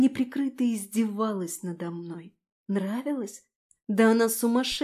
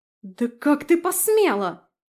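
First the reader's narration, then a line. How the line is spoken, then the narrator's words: Shrieking. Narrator (Russian): завизжала она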